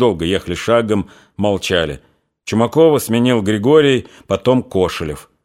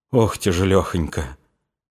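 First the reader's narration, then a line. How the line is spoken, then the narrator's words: Quiet, listless. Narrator (Russian): Стерлядников ... обезвольно ... тихо сказал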